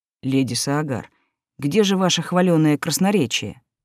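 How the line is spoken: Ironic husky voice. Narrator (Russian): нарушил затянувшееся молчание ироничный голос, отдающий хрипотцой

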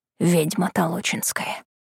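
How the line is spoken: Whispered. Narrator (Russian): шепотом добавляет

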